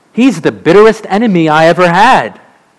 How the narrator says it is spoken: exclaimed the old preacher

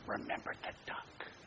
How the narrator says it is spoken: She whispered again

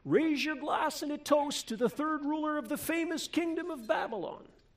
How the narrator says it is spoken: the king or some herald shouting

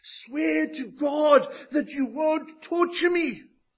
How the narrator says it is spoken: he shouts at the top of his voice, pleading

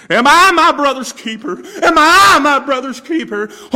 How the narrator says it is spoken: this man is screaming

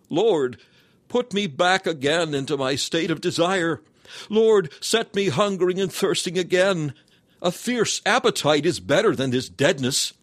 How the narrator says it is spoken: you have cried

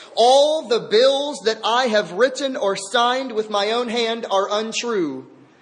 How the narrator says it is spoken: He blurted out in a loud voice

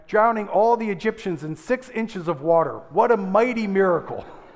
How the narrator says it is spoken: shouted again

